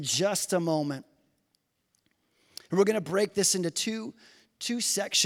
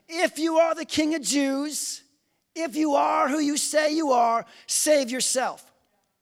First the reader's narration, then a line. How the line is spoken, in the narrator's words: They called out to him